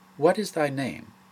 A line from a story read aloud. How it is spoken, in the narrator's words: Christ's kindly question